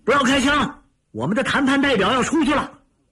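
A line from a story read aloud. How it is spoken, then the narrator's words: Shouted. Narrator (Chinese): 小陈向窗外吼了声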